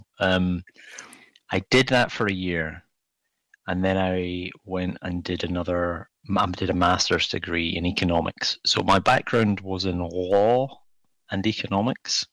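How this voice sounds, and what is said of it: Scottish accent. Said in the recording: “It's a very difficult word to say in a Scottish accent, law.”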